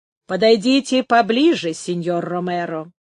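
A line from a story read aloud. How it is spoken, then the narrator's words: Solemn yet friendly. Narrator (Russian): торжественно и вместе с тем дружелюбно проговорила Дукеза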